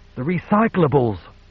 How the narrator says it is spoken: Hobbs cried

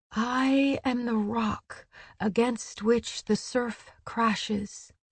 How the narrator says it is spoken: Gwyn whispered

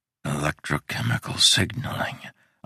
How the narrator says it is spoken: whispered

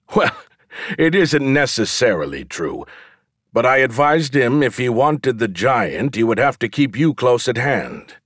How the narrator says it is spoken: laughed for a while, then wiping his eyes, he says

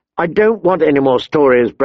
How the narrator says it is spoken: Bran snapped, his voice petulant

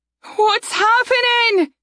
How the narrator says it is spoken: Saria shouted above the din of voices

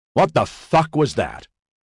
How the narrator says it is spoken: Gore yelled

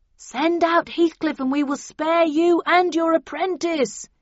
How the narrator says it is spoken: yelled the bullhorn

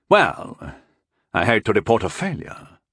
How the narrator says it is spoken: murmured Walven

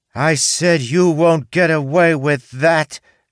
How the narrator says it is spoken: she shouted again, louder this time

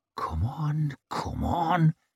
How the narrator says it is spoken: whispered

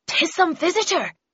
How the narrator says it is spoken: said urgently and rapidly

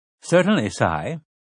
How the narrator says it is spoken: Nigel replied in his plummy British accent

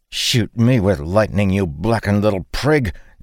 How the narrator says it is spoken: Dalen spat

